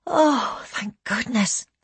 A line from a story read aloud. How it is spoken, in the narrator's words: Elaine said with a huge sigh of relief